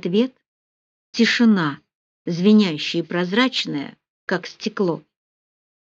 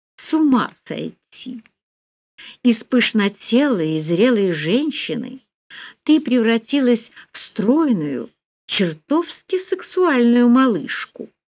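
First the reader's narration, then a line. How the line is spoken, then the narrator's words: Husky purr, surprised, pleased. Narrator (Russian): хрипло промурлыкал Рауль, не скрывая своего удивления и удовольствия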